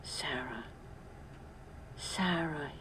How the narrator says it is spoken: said softly

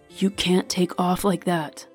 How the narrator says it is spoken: Vivin growled quietly

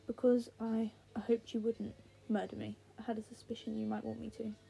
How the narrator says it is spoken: Henry says

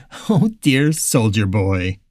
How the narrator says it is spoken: the woman said with a chuckle

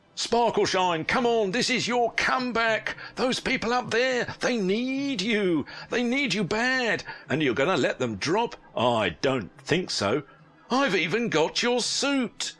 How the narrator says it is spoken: Chris said, his voice radiating pure ecstasy

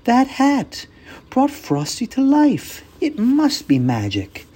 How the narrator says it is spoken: Karen gasped and said

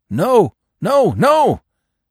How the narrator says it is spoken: yelped the dog

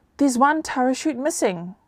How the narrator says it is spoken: one of Tangaloa's servants called out

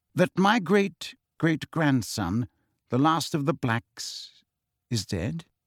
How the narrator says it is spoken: said Phineas Nigellus, slowly

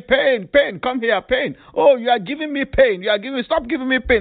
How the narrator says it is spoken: peers at school crying, shouting and making fun of him or her, mocking him or her, say

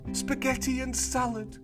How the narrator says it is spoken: cried Clarissa

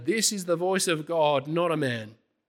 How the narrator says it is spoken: They shouted

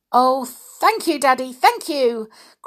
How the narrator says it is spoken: cried Jenny in delight

